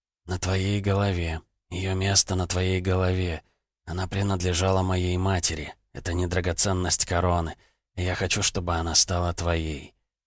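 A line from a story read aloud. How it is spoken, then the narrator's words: Whispered. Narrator (Russian): шепотом ответил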